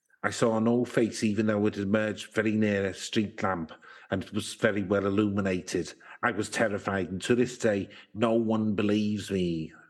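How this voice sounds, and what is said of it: Put-on Mancunian accent with Liverpool tinge. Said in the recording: “Bit of time in Liverpool, that Mancunian, by the sound of it. ... Similar accents. ... I was a bit distracted by the accent. ... the richness of my character acting”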